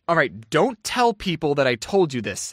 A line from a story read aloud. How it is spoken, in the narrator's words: said